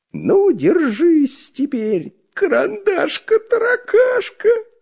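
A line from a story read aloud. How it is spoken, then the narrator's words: Nasty giggling. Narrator (Russian): противно хихикая говорил Дырка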